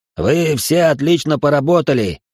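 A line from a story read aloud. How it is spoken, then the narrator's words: Shouting. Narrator (Russian): крикнул Мейсон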